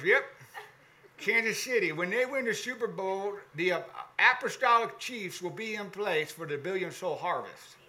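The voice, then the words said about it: Imitated Arkansas accent. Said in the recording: “he's an Arkansas boy. And that's a little bit of a Bob, you know, impersonation.”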